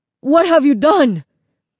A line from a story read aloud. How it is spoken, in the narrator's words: Señor Castillo cried